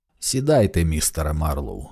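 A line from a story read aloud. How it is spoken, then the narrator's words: Tired, slightly stern voice. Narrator (Ukrainian): голос звучав втомлено і трохи строго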